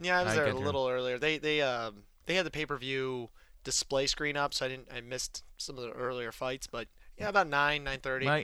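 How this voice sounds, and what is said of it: Hoarse, nearly lost voice. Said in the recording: “My voice is still gone after 220.”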